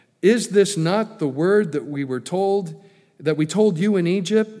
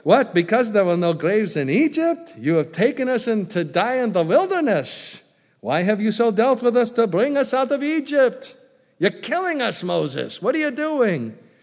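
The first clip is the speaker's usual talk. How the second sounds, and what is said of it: Put-on Jewish accent. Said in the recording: “you just picture in your mind the typical Jewish accent ... I can go ahead and mimic the accent ... I'll drop the Jewish accent”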